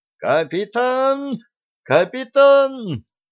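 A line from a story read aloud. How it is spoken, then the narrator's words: Shrill high-pitched scream. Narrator (Russian): Федоров неестественно тонким голосом визгливо закричал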